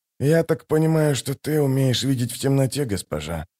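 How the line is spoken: Muttering. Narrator (Russian): пробормотал Ток

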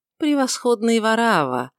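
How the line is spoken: Cold but pleasant voice. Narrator (Russian): продолжал он все тем же холодным, но приятным голосом

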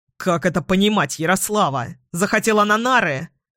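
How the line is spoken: Too loud male. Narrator (Russian): Он говорит слишком громко

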